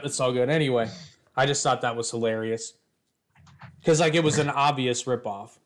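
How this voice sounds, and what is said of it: Usual voice. Nothing is said of it.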